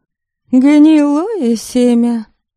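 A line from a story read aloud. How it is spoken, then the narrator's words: Snorted. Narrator (Russian): фыркнула Софья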